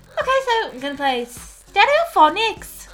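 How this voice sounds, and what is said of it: Put-on Welsh accent. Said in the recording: “That was my Welsh there. My Welsh, did you like that? My Welsh accent.”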